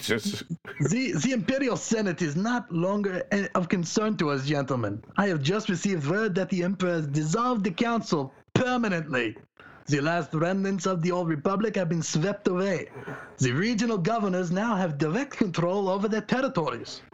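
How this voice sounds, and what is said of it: Put-on German accent. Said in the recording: “how do I do a German accent again?”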